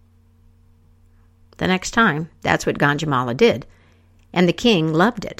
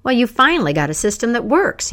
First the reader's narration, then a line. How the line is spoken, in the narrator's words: exclaimed